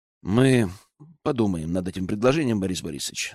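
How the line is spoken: Calm. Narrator (Russian): спокойно сказал я

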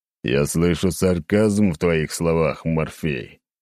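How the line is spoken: Low booming frown. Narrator (Russian): прогудел неназываемый, нахмурившись

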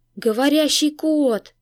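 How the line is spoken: Astonished gasp in unison. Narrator (Russian): дружно выдохнули пораженные сельчане

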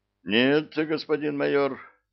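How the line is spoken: Sigh. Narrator (Russian): вздохнул тот

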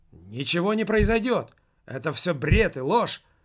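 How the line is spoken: Shout. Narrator (Russian): выкрикнул внук фотографа

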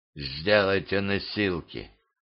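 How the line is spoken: Whisper. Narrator (Russian): русский шепнул

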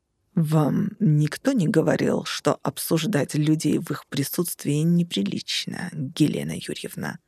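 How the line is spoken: Through gritted teeth. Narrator (Russian): процедил куратор

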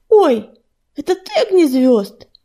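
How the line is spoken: Kitten exclaiming. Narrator (Russian): воскликнул котик

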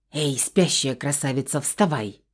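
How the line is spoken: Loud whisper. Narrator (Russian): Громким шепотом позвала Хеверима, стараясь не разбудить сестрицу и прикорнувшего на моей подушке Феникса

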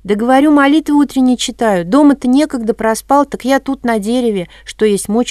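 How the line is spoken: Holy fool shouting. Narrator (Russian): закричал юродивый

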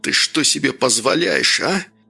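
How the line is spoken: Hissed into ear. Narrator (Russian): прошипел Август в ухо Лёке

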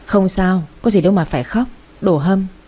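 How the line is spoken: Forced smiling reassurance. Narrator (Vietnamese): cô ấy thì vẫn cố gắng mỉm cười nói với tôi

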